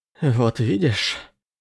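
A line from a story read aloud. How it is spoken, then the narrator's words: Breathless wheeze. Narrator (Russian): прохрипел, согнувшись пополам и пытаясь выровнять дыхание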